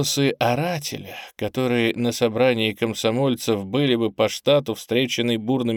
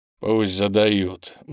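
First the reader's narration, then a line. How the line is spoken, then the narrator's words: Gloomy grumble. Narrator (Russian): мрачно буркнул комсомолец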